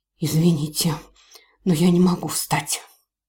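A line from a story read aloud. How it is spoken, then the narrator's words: Hoarse female voice. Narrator (Russian): произнесенной хриплым женским голосом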